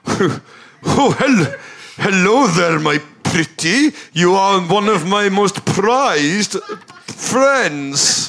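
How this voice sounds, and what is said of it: Put-on Scandinavian accent, drifting. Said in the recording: “How is your Scandinavian accent ... It's perfect. ... That's sort of Alec Guinness.”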